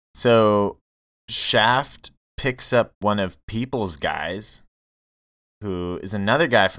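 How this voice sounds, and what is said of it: Usual voice. Nothing is said of it.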